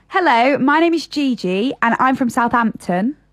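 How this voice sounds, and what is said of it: Put-on southern English accent. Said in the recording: “do an impression of the southern accent”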